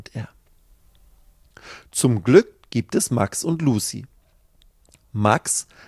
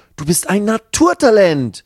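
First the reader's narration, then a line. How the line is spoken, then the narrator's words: Calling out. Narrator (German): ruft Max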